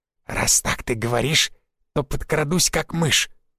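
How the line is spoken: Hissing. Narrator (Russian): прошипел Шут

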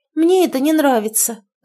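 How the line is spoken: Daughter's sigh. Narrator (Russian): вздохнула дочка

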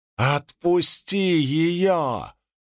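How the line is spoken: Yelling. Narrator (Russian): заорал Адалин

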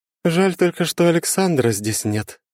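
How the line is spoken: Sighing, smiling. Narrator (Russian): вздохнула, улыбаясь

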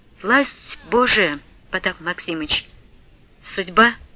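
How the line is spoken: Plain. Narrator (Russian): сказала Марья Гавриловна

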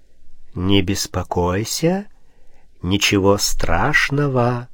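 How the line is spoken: Hot whisper. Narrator (Russian): жаркий шепот

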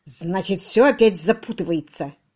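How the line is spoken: Grumbling. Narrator (Russian): проворчал Фокс

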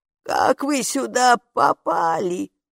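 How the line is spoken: Thin-voiced witch. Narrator (Russian): тонким голосом продолжала ведьма

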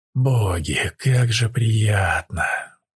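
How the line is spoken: Moan. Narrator (Russian): простонал Тайс

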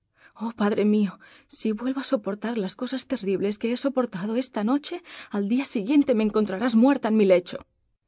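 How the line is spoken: Broken, halting voice. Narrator (Spanish): La pobre princesa dijo con voz entrecortada

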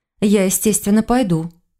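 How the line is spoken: Plain. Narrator (Russian): сказала Саша

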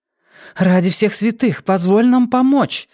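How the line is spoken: Exclaiming. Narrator (Russian): воскликнула Нина

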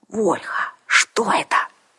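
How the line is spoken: Whisper. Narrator (Russian): шепнула Арсана

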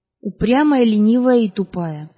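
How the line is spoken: Plain. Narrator (Russian): ответила

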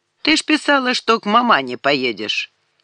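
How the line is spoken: Stern shout. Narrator (Russian): Санек строго прикрикнул

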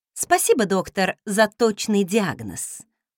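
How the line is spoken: Snorting. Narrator (Russian): фыркнула я

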